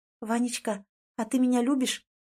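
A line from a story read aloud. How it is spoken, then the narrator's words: Trembling whispered question. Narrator (Russian): Дрогнувшим шепотом спрашивает Лиза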